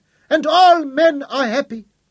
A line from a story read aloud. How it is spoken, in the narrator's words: they whined